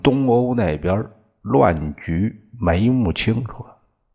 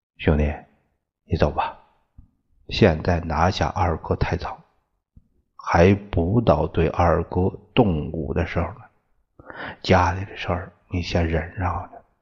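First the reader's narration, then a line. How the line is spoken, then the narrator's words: Soft, firm. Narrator (Chinese): 明耀 轻声断然的说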